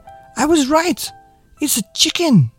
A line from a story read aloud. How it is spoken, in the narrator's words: exclaimed Marilyn